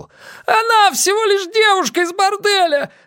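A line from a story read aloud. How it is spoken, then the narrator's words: Shout. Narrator (Russian): закричал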